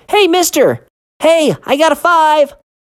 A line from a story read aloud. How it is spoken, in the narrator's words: He nearly leapt when he shouted